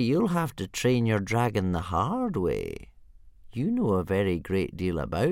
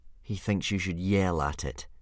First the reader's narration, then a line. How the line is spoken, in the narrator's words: said Hiccup, gloomily